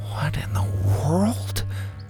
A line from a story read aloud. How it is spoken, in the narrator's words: Bo whispered